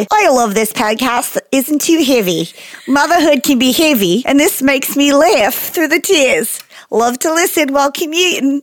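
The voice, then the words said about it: Poor put-on Australian accent. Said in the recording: “I do a terrible Australian accent ... I'm terrible at Australian. I can't do an Australian accent. ... The audacity you have to call that an Australian accent.”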